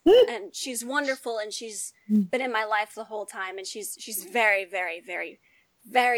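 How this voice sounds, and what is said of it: Usual voice. Nothing is said of it.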